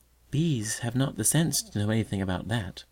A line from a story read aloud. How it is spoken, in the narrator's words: observed the little girl softly